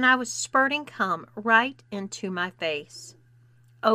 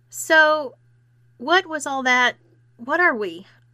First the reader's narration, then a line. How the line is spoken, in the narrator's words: I exclaimed, indignant